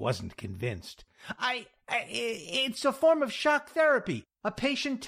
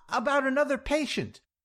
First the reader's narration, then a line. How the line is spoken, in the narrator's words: ran on desperately